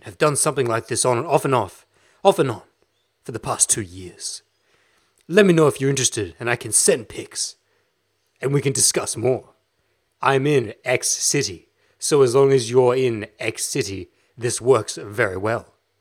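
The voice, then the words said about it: Seedy, slightly British put-on voice. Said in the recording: “I can't read a message like this in my regular voice, in my serious podcast voice. Because I had to take that seedy, slightly British, too much money in his pants type voice.”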